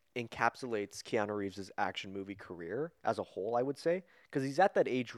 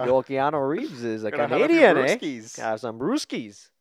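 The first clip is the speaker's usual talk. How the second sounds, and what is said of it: Put-on Canadian hockey accent. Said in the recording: “do a little bit of a hockey accent, bud.”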